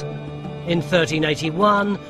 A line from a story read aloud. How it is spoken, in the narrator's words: the people snapped